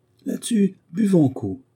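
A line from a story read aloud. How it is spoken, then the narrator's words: Joyful exclamation. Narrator (French): s'écria Otto, comme transporté de joie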